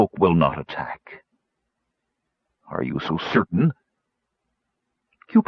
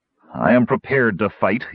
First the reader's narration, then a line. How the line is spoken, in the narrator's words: said grimly